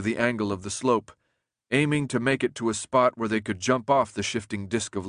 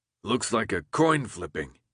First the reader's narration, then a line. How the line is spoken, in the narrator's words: Alec muttered